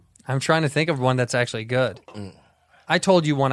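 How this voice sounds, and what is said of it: Usual voice. Nothing is said of it.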